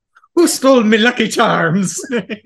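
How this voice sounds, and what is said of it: Put-on Irish accent. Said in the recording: “But not in an Irish accent.”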